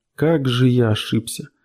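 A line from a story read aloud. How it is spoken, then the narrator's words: Muttered. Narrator (Russian): пробормотал он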